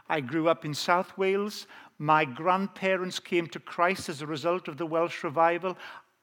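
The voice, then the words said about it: Welsh accent. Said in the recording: “as you can tell, I have an authentic Welsh accent.”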